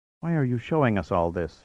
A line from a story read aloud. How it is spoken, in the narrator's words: asked in a whisper